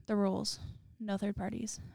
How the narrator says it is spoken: said

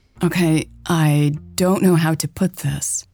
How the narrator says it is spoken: Hannah said hesitantly

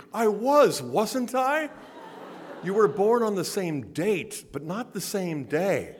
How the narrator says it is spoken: my five-year-old looked up, pleading

